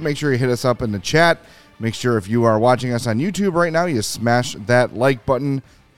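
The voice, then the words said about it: Gravelly, rough voice from cold. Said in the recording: “apologize for my voice. Fighting a little bit of a cold ... I just sound like crap ... my voice is also going to sound bad ... You got that gravelly ... the rugged gravelly voice going”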